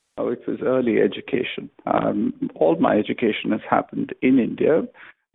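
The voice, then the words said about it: British-sounding English accent. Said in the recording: “you have a British accent.”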